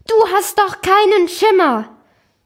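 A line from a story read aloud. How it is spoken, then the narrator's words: Calling out. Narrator (German): das soziale Drama rief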